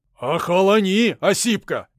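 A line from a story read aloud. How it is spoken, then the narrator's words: Menacing shout. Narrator (Russian): грозно выкрикнул я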